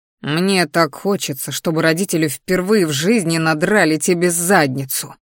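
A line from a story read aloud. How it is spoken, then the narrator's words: Angry growl. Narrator (Russian): рыкнул злобно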